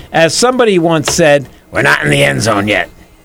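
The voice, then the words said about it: Imitates another person's voice. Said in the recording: “That was my Fauci imitation.”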